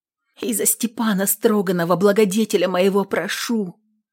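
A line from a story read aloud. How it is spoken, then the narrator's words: Exhausted whispered prayer. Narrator (Russian): шептала на исходе молитвы и сил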